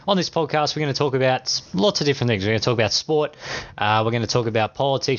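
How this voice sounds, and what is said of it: Australian accent. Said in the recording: “as you can tell by my accent ... I am Australian”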